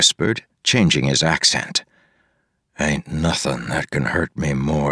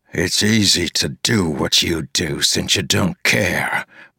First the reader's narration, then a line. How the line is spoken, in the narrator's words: Wayne growled to the two